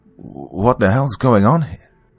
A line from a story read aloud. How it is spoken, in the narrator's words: I stammered